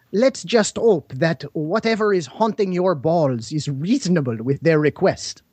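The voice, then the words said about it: Terrible put-on French accent. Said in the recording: “we will have terrible French accents.”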